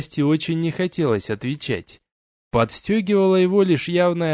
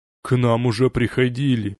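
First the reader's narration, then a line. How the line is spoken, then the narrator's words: Grumbling under breath. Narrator (Russian): пробурчал себе под нос староста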